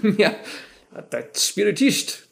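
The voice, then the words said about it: Karl Marx German accent impression. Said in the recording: “Karl Marx say spiritist in his German accent”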